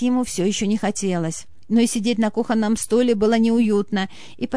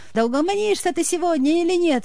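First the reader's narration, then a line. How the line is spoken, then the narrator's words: Wife exclaiming. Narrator (Russian): воскликнула жена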